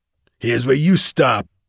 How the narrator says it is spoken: he growled

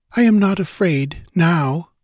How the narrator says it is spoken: she sighed

